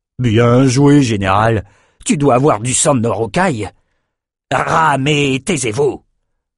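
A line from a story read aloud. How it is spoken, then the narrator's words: Roared. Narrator (French): rugit Outros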